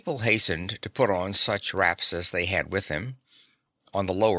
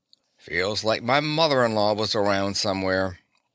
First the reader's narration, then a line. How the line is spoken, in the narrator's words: one young man caused a ripple of laughter by remarking